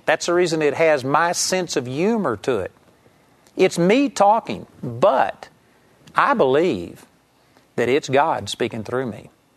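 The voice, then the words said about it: Texas accent. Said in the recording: “it comes out in a Texas accent.”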